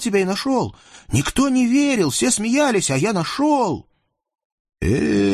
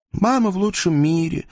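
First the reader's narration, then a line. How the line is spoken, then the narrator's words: Sighing, young man. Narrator (Russian): вздохнул юноша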